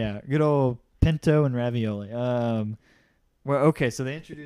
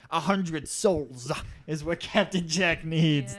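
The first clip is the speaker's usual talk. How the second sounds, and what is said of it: Davy Jones impression. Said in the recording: “that was spot on ... That's pretty good ... That's the best so far ... If anybody needs any Davy Jones impersonators”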